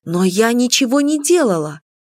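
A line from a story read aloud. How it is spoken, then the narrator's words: Frightened exclamation. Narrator (Russian): воскликнула я испуганно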